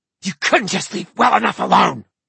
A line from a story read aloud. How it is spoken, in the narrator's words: Zara hissed